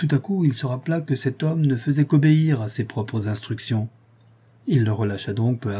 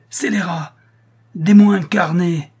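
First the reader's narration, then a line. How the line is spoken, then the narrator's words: Furious exclamation. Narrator (French): s'écria Schedoni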